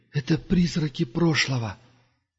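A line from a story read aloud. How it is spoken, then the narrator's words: Barely audible. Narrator (Russian): едва слышно ответил ему Дуга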